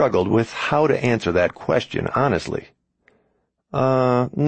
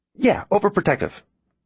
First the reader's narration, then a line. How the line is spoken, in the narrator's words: Ben agreed a little too quickly